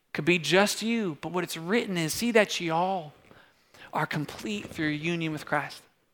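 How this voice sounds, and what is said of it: Put-on Southern accent. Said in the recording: “Just kept going in a Southern accent there.”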